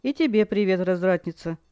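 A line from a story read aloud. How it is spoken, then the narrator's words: Smirking snort. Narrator (Russian): Кайл хмыкнул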